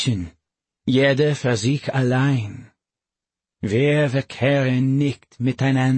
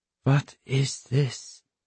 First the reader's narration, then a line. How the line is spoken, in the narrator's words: I whispered